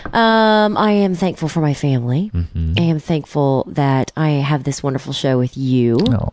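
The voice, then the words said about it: Voice affected by a cold. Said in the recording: “I have a bit of a cold”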